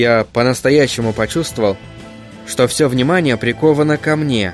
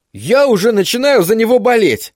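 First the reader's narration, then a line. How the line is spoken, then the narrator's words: Excited exclamation. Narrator (Russian): воскликнул Тедди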